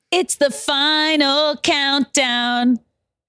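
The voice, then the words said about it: Sung line with voice cracking. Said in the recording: “I had a crack in my voice ... My voice cracked.”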